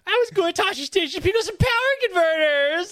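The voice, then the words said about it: Imitation of Luke Skywalker's voice. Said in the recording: “that's my impression... Really good”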